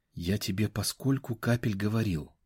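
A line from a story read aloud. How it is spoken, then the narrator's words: Strangled voice. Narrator (Russian): задушенным голосом заговорил я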